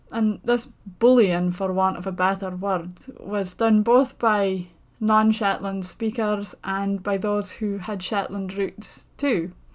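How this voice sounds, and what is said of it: Shetland accent. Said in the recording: “speaking with a Shetland accent, one that I grew up with”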